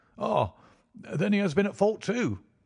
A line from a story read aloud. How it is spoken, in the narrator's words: exclaimed Jones with evident satisfaction